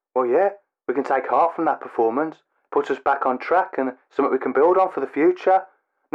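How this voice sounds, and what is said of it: Talks like a football manager. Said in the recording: “Why are you talking like a football manager?”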